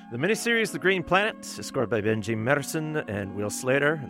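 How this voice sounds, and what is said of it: Finnish accent with rolled R's. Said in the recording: “what kind of French accent do you have? I'm like, I'm Finn, the R's will roll. They could be at the back of the throat. I also have a mask on, so it's all a mess ... now I'm rolling the R on all the English words here.”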